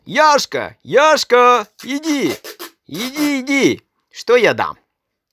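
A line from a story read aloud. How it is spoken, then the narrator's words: Shout. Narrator (Russian): Юхименко закричал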